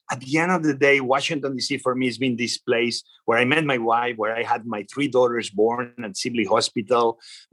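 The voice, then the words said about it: Spanish accent. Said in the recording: “I come from Spain. You see my accent, everybody knows it. ... a proud Washingtonian with an accent”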